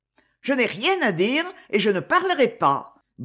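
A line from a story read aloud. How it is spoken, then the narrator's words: Quick, brisk. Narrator (French): dis-je vivement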